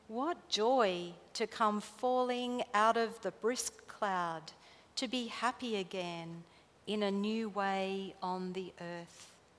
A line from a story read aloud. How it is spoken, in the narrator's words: the rain spoke, slowly saying